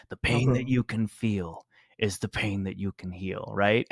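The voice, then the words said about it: Gravelly imitated older man's voice. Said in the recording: “I can't do his Irish accent anymore... I can't do the accent, but I can do his gravelly voice.”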